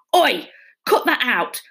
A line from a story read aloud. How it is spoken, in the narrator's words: the driver barked